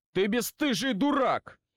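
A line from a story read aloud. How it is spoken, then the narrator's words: Shouted out. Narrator (Russian): выкрикнул мастер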